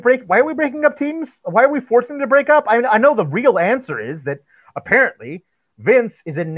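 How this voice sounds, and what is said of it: Usual voice. Nothing is said of it.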